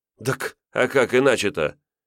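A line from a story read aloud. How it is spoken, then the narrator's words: Snorting. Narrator (Russian): Хмыкнув, Митька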